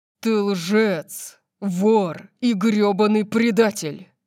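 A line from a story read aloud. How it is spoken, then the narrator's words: Growled. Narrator (Russian): прорычал он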